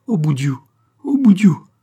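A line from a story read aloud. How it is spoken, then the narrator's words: Sobbing lament. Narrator (French): se lamenta-t-elle en partant, des sanglots dans la voix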